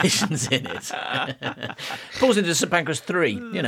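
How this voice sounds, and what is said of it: Usual voice. Nothing is said of it.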